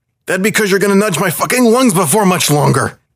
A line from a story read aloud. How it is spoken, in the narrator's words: the panther snarled back